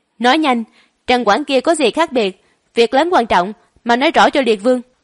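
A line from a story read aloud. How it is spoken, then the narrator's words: Loud shout. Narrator (Vietnamese): Sứ giả hét lớn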